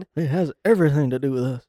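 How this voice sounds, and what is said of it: Imitates another person's voice. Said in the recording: “That is such a good impression.”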